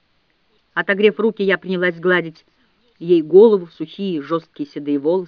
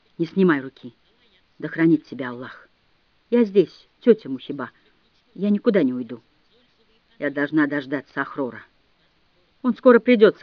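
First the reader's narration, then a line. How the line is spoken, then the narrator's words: Frightened whisper. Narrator (Russian): Мухиба испуганно заморгала и прошептала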